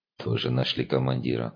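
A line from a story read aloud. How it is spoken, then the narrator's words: Sighing blind man. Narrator (Russian): слепой вздохнул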